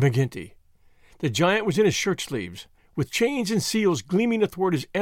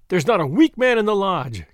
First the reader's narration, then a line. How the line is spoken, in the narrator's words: cried McGinty